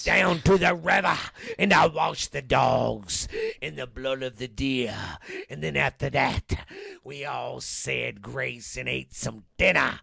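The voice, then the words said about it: Preacher impression. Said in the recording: “I was trying to do my preacher impersonation.”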